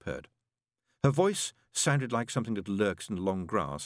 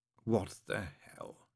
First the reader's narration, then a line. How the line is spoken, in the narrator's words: said quietly